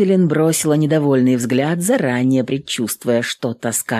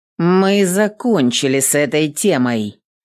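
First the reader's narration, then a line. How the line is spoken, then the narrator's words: Rudely interrupting. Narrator (Russian): грубо перебила Эвелин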